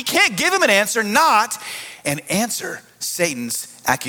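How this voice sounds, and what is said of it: Usual voice. Nothing is said of it.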